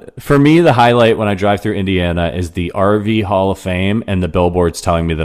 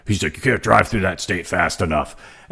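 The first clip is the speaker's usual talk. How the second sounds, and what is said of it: Imitates another person's voice. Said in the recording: “That's a good impression.”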